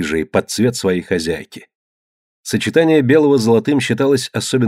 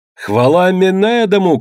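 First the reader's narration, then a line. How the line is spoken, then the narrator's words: Shout. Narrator (Russian): крикнул предводитель спартанцев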